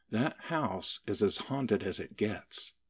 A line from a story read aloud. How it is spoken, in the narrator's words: With her voice lowered, she continued